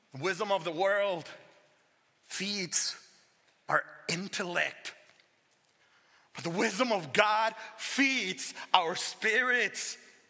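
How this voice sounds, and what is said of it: Speaks with a noticeable accent. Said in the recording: “Regardless of my accent”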